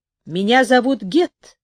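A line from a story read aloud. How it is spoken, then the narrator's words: Loud. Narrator (Russian): громко сказал он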